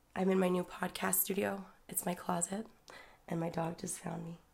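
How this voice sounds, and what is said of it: Hoarse, sick-sounding voice. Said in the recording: “As you can hear, my voice is a little messed up. I got pretty sick there.”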